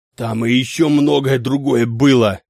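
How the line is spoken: Hoarse wheeze. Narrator (Russian): просипел Клаус Мария

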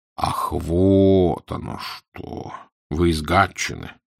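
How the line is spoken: Drawling. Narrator (Russian): протянул Фандорин

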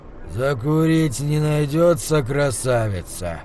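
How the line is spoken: Hoarse cracked cockney voice. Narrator (Russian): раздался из темноты хриплый, натреснутый голос с тяжелым акцентом кокни

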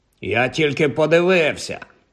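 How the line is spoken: Grumbled. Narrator (Ukrainian): буркнув він

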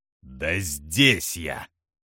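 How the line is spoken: Growled. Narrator (Russian): прорычал он

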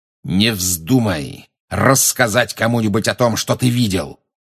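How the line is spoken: Growling. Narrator (Russian): прорычал Снег

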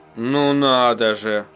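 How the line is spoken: Surprised drawl. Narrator (Russian): удивленно протянул Эдди

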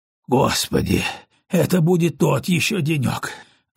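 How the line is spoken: Breathed out. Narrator (Russian): выдохнул он

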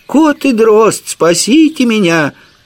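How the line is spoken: Childlike voice. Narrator (Russian): Дитячьим голосом сказал Жихарь

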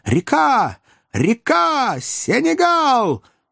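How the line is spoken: Joyful shout. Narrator (Russian): доктор радостно закричал

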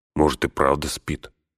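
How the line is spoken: Muttered. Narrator (Russian): пробормотал он

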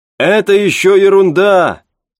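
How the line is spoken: Shouting over engine noise. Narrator (Russian): крикнул пилот, перекрывая шум мотора и свист лопастей винта

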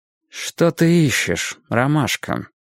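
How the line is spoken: Even, restrained voice. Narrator (Russian): Кровь бросилась мне в голову, но я спросил ровным голосом

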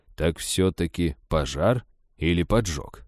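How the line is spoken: Stern interruption. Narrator (Russian): строго перебил его шериф

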